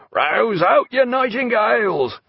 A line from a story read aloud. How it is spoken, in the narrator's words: the one shouting